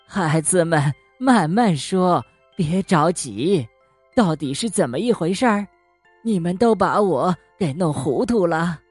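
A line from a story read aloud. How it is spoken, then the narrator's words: Cheerful old woman. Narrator (Chinese): 熊婆婆笑呵呵的说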